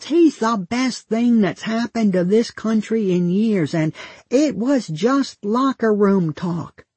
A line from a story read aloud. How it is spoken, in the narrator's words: my father shouts